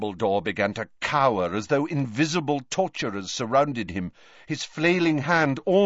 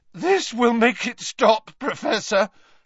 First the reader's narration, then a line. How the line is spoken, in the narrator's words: Harry said, his voice cracking